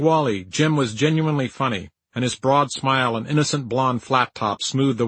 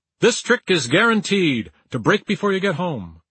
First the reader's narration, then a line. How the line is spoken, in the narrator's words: he would say loudly